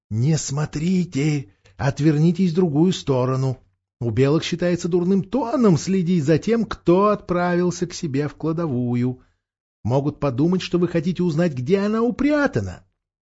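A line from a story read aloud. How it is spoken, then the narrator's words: Whisper in ear. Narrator (Russian): Боровик шепнул на ухо Каспиану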